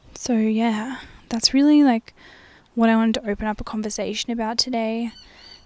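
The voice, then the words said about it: Drowsy, spaced-out, low-energy voice. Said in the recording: “as you can tell by my voice, I'm very like kind of out of it and dissociated today ... I just had a huge sleep in today and I'm just a bit out of it”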